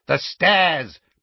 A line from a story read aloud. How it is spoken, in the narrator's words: cried Dawlish